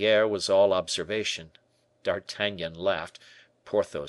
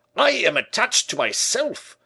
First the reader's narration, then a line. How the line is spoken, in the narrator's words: shouted Porthos